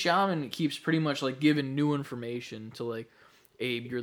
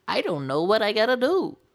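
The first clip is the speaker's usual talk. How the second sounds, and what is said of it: Imitates a video game character's voice. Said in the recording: “great Abe impression”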